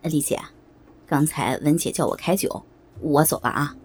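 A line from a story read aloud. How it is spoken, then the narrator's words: Giggling. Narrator (Chinese): 小张嘻嘻地笑了一下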